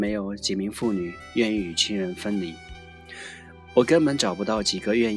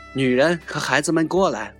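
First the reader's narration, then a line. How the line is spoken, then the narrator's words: Shouting. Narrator (Chinese): 我高喊着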